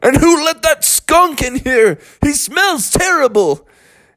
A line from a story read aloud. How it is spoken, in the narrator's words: everyone started to shout out